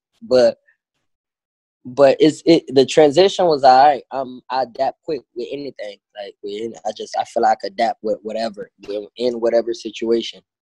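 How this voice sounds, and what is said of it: Haitian accent. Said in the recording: “you could probably hear my accent”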